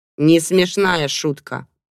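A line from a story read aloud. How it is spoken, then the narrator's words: Grumbling. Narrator (Russian): буркнула подруга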